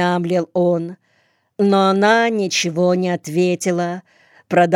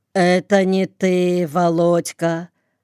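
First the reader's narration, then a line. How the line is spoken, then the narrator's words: Empty, indifferent tone. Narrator (Russian): каким-то пустым, безразличным тоном проговорила она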